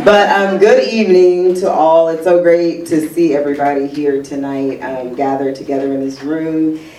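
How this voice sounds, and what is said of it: Slightly deeper, under-the-weather voice. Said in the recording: “I'm a little under the weather, so my voice is slightly deeper than normal.”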